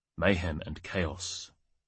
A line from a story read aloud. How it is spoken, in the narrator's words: murmured all